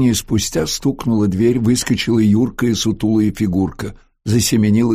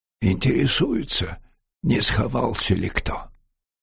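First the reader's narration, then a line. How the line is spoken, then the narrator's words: Whisper. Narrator (Russian): шепнул Бабчук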